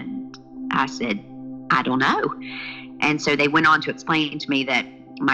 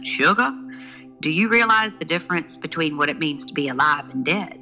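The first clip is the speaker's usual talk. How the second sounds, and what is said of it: Big, deep Southern accent. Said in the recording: “in this big, deep Southern accent”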